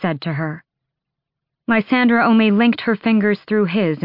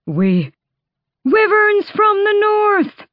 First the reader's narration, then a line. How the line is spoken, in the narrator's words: The screamed warning shattered down the battlements